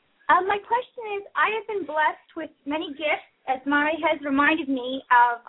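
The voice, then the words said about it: Hyper, somewhat high-pitched voice. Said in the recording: “my voice is kind of a little bit hyper, a little high for someone my age”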